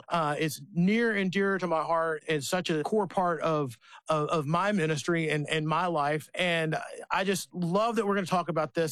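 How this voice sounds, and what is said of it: Excited, energetic voice. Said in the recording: “I'm pumped. You could probably hear it in my voice because I'm really excited”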